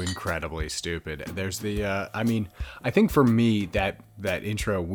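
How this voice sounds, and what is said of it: Usual voice. Nothing is said of it.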